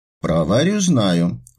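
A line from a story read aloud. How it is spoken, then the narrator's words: Sighing. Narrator (Russian): вздохнула Полина Яковлевна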